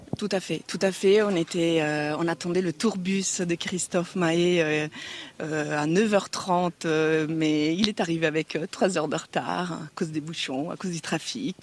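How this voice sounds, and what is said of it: Italian-accented French. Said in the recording (French): “elle a des origines euh, italiennes et un bel accent.”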